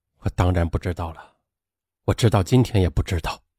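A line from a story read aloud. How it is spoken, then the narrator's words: Drunken mumble. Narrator (Chinese): 杨刚他带着醉意喃喃地说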